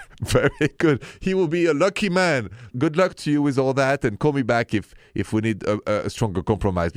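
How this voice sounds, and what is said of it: Thick French accent. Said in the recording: “my thick accent is still French”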